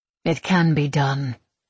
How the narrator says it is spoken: she says flatly

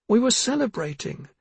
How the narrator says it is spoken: Missa tried to breathe past her terrible sobbing

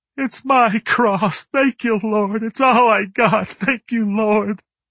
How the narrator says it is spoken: one bawling like a baby, saying

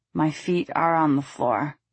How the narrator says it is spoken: he slurred

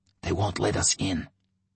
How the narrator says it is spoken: Yurets whispered

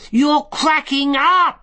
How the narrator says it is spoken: she shouted

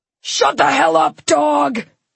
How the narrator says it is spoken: spat Zach

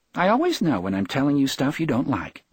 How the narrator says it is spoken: she said brightly

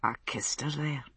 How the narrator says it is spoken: he said softly

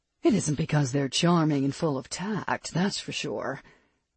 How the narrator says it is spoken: Perry muttered under her breath

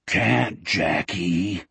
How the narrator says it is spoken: Wolf spoke, in a thunderous stage whisper

